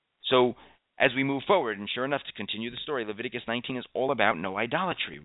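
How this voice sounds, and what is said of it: Voice sounds slightly sick. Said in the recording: “my voice sounds a bit strange today. I guess I'm getting a bit sick... what you're hearing in my voice”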